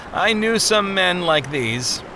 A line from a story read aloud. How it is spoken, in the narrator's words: Ignorance said with a sad chuckle